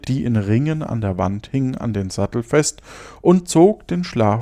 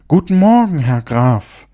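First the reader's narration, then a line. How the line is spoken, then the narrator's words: Calling out. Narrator (German): rief er ihm zu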